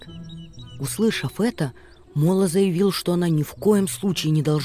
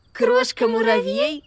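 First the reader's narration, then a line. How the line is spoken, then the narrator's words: Giggling in unison. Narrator (Russian): хихикнули Макси и Амелия одновременно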